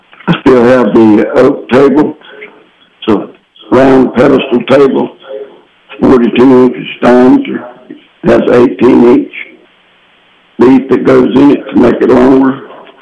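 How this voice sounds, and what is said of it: Hoarse voice. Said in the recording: “I'm a little hoarse this morning. This pollen is working on me.”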